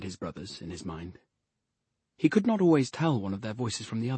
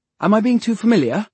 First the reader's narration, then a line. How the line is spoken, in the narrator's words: asked anxiously